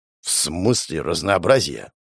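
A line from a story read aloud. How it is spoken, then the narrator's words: Muttered. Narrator (Russian): пробормотал он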